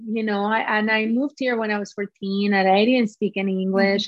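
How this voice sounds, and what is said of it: Peruvian Spanish accent in English. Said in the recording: “I still have an accent... I love my accent... reflects the woman that I am from Peru”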